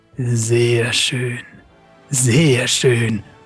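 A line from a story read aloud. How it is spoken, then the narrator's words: Murmured. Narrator (German): murmelte er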